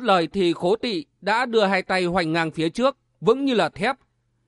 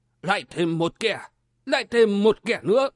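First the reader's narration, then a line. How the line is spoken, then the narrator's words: Cold muttering. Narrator (Vietnamese): vẻ mặt vẫn cứ lạnh lùng, lẩm bẩm nói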